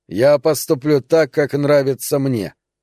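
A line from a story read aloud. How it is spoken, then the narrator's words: Answered coldly. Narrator (Russian): холодно ответил Лайтборн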